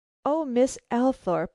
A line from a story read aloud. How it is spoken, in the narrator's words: I exclaimed, this time with considerable vehemence